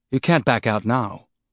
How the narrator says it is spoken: Holden said, trying to keep his voice calm and professional against the rising panic he felt

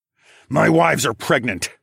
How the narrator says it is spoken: I growled

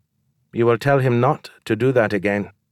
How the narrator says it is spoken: Ambrosius said in a flat voice

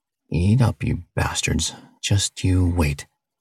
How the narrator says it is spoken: he quietly said to himself

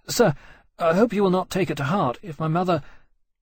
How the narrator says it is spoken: Ferris blurted desperately

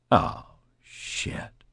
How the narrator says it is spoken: Wilson whispered

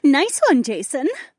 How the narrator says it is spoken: Becca giggled

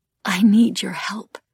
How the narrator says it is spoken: Feeling slightly ridiculous, whispered

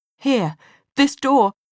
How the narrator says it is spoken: Sophie gasped

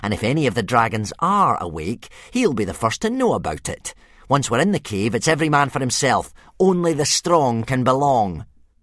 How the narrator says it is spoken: he sneered

